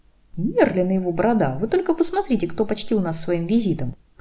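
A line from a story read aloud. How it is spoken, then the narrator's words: Chuckling. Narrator (Russian): хохотнул Паркинсон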